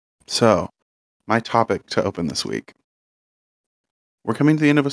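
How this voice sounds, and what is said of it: Usual voice. Nothing is said of it.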